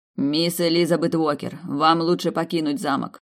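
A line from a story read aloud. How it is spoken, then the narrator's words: Stern. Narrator (Russian): строго произнес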